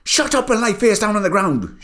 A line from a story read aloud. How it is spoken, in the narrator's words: shouted Bart